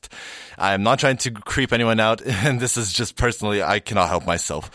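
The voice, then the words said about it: Slightly cracky voice with a cold. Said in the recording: “I have a bit of a cold ... my voice is a bit cracky”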